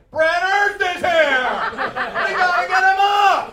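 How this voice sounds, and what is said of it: Screaming imitation of another person. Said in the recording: “why are you screaming?”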